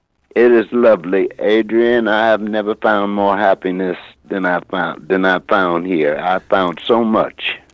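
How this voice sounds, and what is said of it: American accent. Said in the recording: “we can tell by your accent you were actually born, stateside, Pittsburgh”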